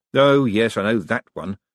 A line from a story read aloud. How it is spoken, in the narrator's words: said Moist bitterly